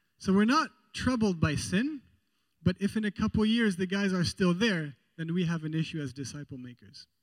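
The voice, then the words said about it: Mixed European accent. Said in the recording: “wondering about my accent ... My grandpa was born in Holland. My mother was born in Belgium ... I was born in France ... So I'm a mix.”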